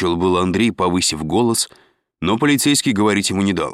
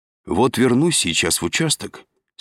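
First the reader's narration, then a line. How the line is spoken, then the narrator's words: Calm. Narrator (Russian): спокойно сообщил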